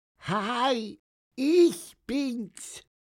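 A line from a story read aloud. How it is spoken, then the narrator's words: Squeaky voice. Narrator (German): piepste er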